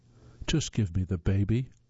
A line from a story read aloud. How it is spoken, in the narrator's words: King pleaded